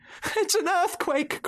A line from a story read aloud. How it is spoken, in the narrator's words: cried Mrs